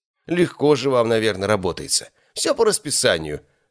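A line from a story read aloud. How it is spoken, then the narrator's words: Snorting, skeptical. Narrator (Russian): хмыкнул Биркин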